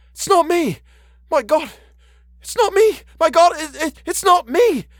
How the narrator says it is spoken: Parsket managed to gasp out

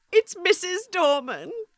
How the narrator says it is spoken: she sobbed

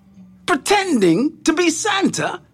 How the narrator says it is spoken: Santa said angrily

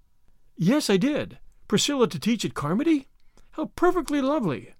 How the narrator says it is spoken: exclaimed Anne

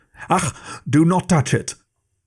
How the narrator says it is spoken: Mond-Gaffer cried out

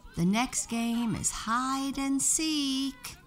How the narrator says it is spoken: Winnie shouted

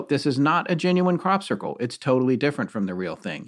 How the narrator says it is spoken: he said firmly

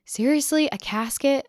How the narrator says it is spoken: said

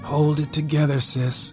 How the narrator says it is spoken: murmured

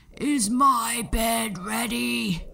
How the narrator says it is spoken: the giant would growl

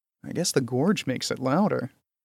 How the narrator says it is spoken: he murmured to himself

